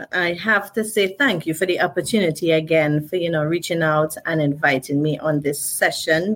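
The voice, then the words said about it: Speaks with a noticeable accent. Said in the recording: “I love that accent.”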